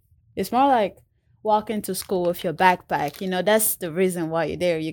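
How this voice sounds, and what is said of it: Non-native English accent. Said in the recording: “I have an accent”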